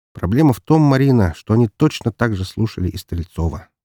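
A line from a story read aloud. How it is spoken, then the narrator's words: Plain. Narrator (Russian): ответил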